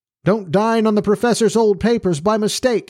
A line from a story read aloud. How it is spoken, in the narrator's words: he cried as he vanished down the street